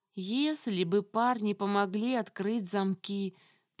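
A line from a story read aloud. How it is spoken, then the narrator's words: Drawling. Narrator (Russian): протянула я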